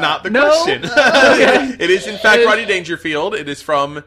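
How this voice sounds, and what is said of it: Usual voice. Nothing is said of it.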